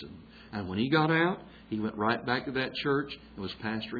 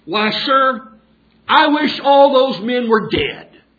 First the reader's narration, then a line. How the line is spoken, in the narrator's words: In frustration and desperation, he exclaimed very loudly